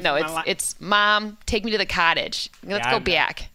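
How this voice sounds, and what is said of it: Exaggerated Michigan Midwest accent. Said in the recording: “It was so Michigan... I had such a Midwest accent... It's bad.”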